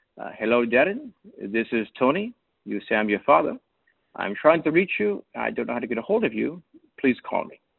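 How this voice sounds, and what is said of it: Imitated Norwegian accent. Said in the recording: “I will do my best to imitate the accent. ... a Norwegian accent”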